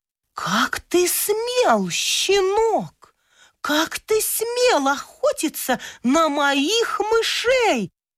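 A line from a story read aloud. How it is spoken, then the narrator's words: Hissing cat. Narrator (Russian): Расшипелась кошка Клаша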